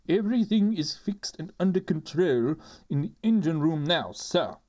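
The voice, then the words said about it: Constable character voice. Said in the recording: “gave the constable voice ... That's my constable and chief inspector voice. I can't really do a proper chief inspector voice”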